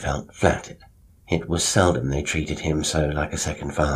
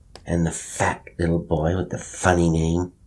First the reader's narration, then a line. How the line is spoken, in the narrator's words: Bill lisped